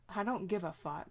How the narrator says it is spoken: Dean says, flatly

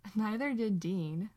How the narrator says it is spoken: Sam laughs

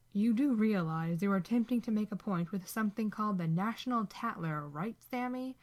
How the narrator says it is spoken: Dean sneers

